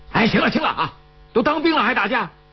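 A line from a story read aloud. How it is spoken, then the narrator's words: Bystander shouting. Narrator (Chinese): 旁边有人在喊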